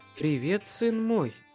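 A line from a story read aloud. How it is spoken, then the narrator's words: Purring. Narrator (Russian): Мурлыкнула Леа, совершенно не обращая внимания ни на дым, ни на бушевавший вокруг огонь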